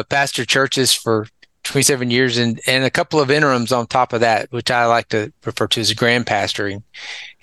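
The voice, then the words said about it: Southern US accent. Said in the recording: “We can hear from your accent that you've spent a lot of time in the South.”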